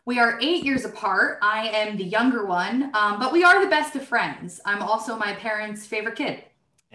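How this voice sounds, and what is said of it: New Jersey accent. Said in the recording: “We grew up in Brick, New Jersey, but our parents are from Harrison and Newark, so that explains the accents.”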